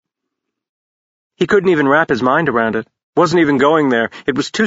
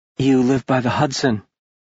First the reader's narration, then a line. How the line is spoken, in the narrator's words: Josie said faintly